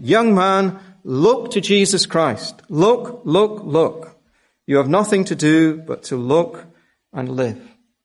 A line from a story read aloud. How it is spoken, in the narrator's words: he shouted